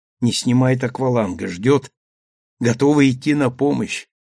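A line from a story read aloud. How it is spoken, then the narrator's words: Old man whispering. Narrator (Russian): шепнул старый капитан Сандре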